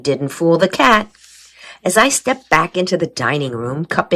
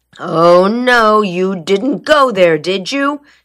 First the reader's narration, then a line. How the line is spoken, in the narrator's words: she groaned